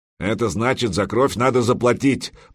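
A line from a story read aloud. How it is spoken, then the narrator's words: Grumbling. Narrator (Russian): проворчал Олаф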